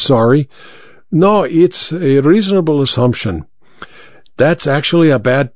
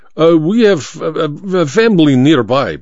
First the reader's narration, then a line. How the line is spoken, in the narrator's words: Baba stammered